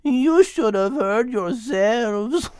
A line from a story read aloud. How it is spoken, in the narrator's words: laughed Isabella